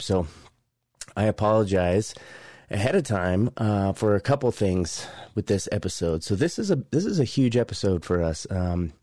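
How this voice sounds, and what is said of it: Hoarse voice with a scratchy throat. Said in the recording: “You guys can probably hear from my voice, I'm just overcoming some bronchitis ... this itch in the back of your throat, making you want to cough all the time”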